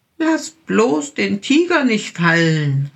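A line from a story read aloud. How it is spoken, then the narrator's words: Little bear calling. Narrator (German): rief der kleine Bär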